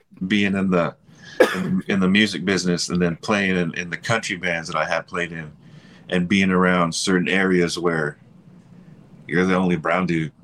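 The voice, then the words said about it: Slight American country accent. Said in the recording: “You kind of have like an accent, a small accent, country accent.”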